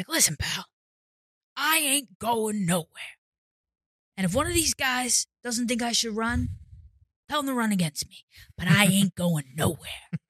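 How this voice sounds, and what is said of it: Imitates another person's voice. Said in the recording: “good Joe Biden impression ... That's a pretty good impression.”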